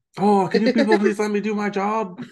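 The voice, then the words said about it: Put-on Chinese accent. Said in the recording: “the Chinese accent comes out. So his real accent comes out.”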